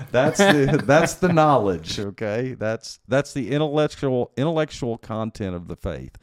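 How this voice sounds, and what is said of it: Texas accent. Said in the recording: “that's said with my Texas accent”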